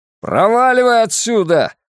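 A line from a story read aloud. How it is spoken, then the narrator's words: Yelled. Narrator (Russian): заорал Сэмюэл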